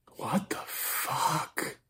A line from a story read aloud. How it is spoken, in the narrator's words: Nathan whispered